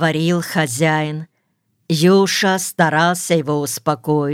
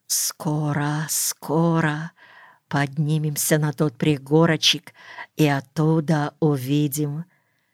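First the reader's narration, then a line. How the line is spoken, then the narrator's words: Impatient whisper to himself. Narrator (Russian): шептал самому себе в великом нетерпении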